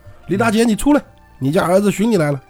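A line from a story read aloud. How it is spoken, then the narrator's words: Calling out. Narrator (Chinese): 立马就叫了一声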